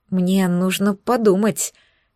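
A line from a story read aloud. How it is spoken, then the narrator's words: Hesitant reply. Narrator (Russian): неуверенно ответила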